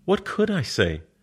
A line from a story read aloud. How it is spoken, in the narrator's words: Her voice is all astonishment